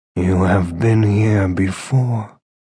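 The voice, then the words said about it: Deep character voice. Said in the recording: “deep voice ... echoed from the shadows”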